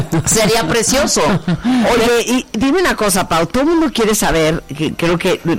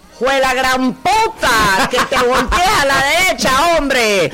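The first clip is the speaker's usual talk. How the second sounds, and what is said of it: Nicaraguan-accented GPS navigation voice. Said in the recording (Spanish): “imagínate el Google Maps en Nicaragua”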